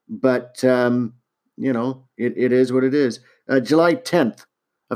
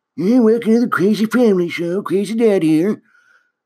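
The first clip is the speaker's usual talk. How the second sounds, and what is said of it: Older, hoarser voice. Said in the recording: “when I'm in my 60s, still making videos. I'll probably sound a bit more hoarse”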